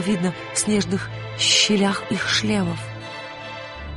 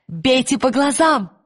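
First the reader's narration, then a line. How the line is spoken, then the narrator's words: Shouted. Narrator (Russian): крикнула она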